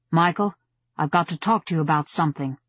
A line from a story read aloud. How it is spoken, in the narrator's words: said with a grunt as the log banged into place